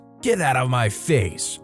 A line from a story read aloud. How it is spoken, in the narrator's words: the lady snaps